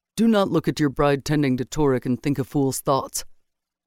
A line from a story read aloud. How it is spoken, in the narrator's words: his friend said gruffly